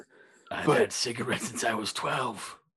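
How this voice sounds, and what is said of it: Deep velvety throaty voice. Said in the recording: “a really deep voice that comes from back here ... it has like an element of velvet to it”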